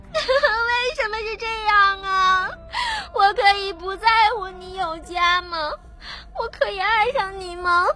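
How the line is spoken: Crying. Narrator (Chinese): 许婷哭着说

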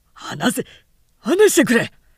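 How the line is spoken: Shouted. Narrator (Japanese): と蔵之介は叫んだ

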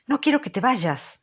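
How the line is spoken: Energetic exclamation. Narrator (Spanish): exclamó ella con energía

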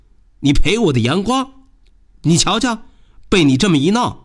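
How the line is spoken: Loud shout. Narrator (Chinese): 他大声的叫道

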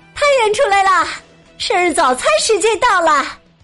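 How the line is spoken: Calling out. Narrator (Chinese): 面包师莎莉喊道

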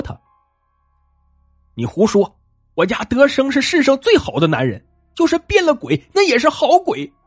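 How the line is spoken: Angry. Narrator (Chinese): 张英兰怒气冲冲的说

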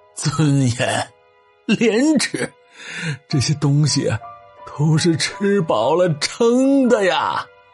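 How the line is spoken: Bitter laugh. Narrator (Chinese): 苦笑了一声，说

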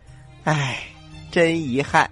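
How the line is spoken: Sighing. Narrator (Chinese): 青蛙摇着头叹息道

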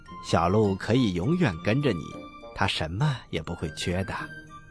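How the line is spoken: Laughing. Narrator (Chinese): 国王笑着说

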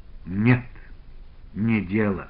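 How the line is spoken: Sigh. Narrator (Russian): вздохнул, наконец, Иван

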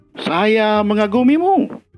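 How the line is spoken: Shouting to mountain. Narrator (Indonesian): dia berteriak ke gunung itu

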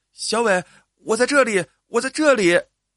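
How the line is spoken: Shouting. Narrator (Chinese): 郑丽也喊了起来

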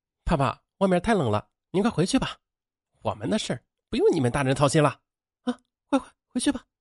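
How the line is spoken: Smiling. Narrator (Chinese): 他笑着说

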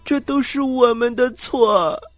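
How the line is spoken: Crying. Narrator (Chinese): 凯蒂都哭了起来

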